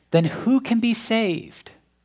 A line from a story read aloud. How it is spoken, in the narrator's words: the disciples to exclaim